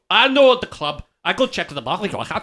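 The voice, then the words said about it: Put-on Scottish accent. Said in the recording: “in my best Scottish accent”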